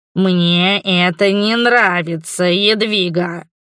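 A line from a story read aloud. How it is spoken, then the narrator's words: Said, then hissing. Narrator (Russian): произнес и снова зашипел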